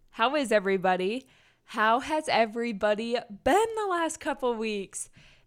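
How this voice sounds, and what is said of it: Groggy early-morning voice. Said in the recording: “why did my voice sound like that? ... it's early in the morning ... I woke up a couple hours ago, but my voice is still trying to catch up to my brain”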